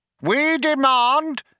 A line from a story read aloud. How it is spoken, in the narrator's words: yelled Vroom Fondle